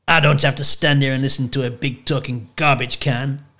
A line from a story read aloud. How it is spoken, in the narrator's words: Andre snarled